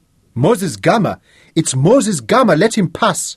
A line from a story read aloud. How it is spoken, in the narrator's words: some of them shouted greetings